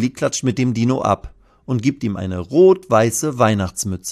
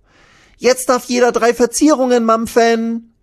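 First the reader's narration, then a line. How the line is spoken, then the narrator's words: Called out. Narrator (German): ruft sie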